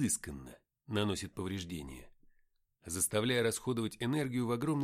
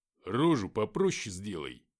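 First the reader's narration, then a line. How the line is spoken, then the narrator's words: Rude, rough. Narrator (Russian): грубо сказал Артем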